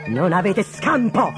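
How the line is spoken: Shouted. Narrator (Italian): gridò

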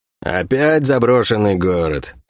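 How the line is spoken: Grumble. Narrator (Russian): проворчал Сойка

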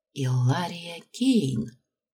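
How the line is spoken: Whisper. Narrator (Russian): прошептала Аманда

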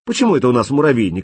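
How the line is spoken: Offended question. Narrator (Russian): обиженно спросил он

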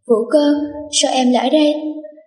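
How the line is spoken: Sudden exclamation. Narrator (Vietnamese): Vương Hàn Phong lập tức kêu lên

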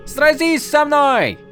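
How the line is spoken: Prince yelling. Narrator (Russian): завопил принц

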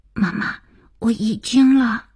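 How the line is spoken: Urgent frightened child whisper. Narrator (Chinese): 听到了儿子急促惶恐的小声

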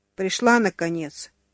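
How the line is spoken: Fairly angry young man. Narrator (Russian): довольно сердито заметил молодой мужчина

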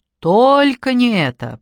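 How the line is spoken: Dismayed groan. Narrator (Russian): простонала Надежда, осознав, что случилось страшное

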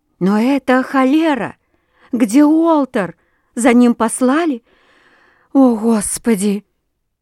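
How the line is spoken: Bursting into sobs. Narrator (Russian): она разрыдалась

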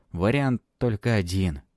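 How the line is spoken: Sighing. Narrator (Russian): вздохнул Палыч

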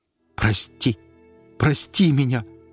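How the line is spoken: Speaking through tears. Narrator (Russian): говорил он сквозь слезы

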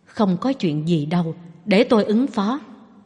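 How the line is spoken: Soft reassuring. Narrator (Vietnamese): Phạn Già La nhỏ giọng trấn an

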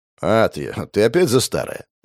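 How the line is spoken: Snort. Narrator (Russian): хмыкнул

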